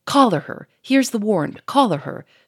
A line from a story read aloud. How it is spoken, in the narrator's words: shouted Gouchard, with savage, triumphant joy